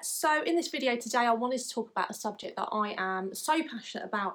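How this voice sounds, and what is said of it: English accent. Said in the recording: “from my accent you may be able to tell that I'm from England”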